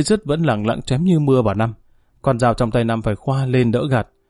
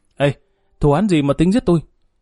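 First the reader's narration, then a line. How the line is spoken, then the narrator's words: Shouting. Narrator (Vietnamese): Năm hét lên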